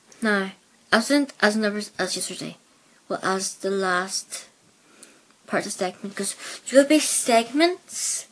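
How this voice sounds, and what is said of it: Mixed Belfast and Plymouth accent. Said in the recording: “my accent sounds a bit off the edge ... I'm from Belfast ... I have a mixture of Plymouth and Belfast speak”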